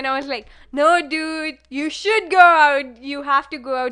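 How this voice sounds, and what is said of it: Imitates another person's voice. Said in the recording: “that's a good impression of Seema. That is great.”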